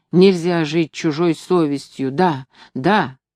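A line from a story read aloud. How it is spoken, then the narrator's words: Voice breaking. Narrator (Russian): вдруг как-то сорвался с голоса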